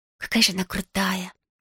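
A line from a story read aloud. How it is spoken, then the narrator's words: Barely audible whisper. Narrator (Russian): чуть слышно прошептала Сексони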